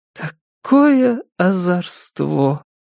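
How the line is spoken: Barely audible. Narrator (Russian): добавила она еле слышно

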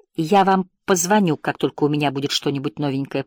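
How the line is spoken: Mutter. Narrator (Russian): пробормотала Сара

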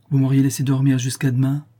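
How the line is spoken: Plain. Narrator (French): dit la comtesse

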